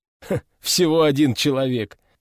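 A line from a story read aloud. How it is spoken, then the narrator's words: Mocking mimicry. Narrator (Russian): насмешливо передразнил меня Овод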